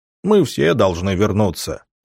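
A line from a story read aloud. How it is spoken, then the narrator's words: Deep bass, big man. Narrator (Russian): пробасил здоровяк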